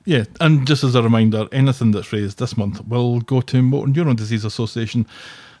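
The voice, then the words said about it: Scottish accent. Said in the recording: “lovely Scottish accent”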